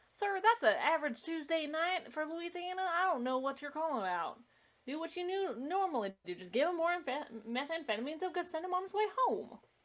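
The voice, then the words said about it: Very bad put-on Southern accent. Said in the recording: “That was my very bad southern accent.”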